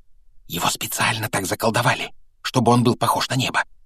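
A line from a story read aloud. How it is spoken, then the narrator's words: Whispering. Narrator (Russian): прошептала опять оказавшаяся рядом Гермиона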